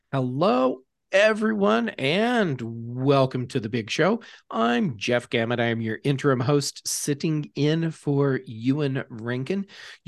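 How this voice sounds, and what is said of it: American accent. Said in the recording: “I have the ham-fisted American accent”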